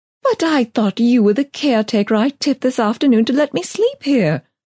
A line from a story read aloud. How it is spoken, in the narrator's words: I gasped